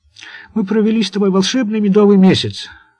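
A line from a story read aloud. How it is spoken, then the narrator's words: Sighing. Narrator (Russian): вздохнула Валентина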